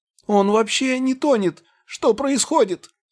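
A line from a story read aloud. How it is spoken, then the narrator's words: Shrill shriek. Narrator (Russian): взвизгнул маг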